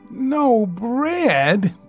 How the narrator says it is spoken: groaned the mole dolorously

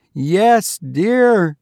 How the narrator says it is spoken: he answered loudly

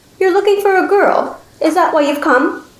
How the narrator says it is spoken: she asked again, her voice sweet as honey

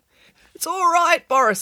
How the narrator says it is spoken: squeaked Derek

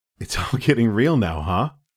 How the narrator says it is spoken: He laughed

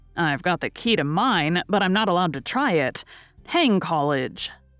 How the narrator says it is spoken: muttered Lori with an impatient sigh

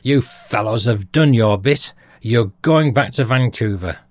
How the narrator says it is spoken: He shouted at us in amazement

